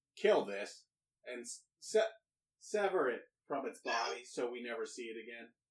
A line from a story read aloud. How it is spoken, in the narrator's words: the what seems like maybe a commander of some type yells to all of his people